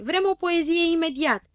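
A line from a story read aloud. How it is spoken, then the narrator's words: Crowd shouting. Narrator (Romanian): strigară cu toții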